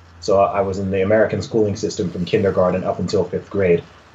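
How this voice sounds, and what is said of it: Mixed British and American accent. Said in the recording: “A lot of people hear my accent and they're like, where's this guy from? Is he British? Is he American? ... I learned how to speak English through American speakers”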